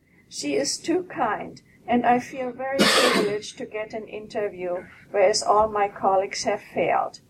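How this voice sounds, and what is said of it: Texas drawl. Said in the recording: “you can tell that I have Texas drawl”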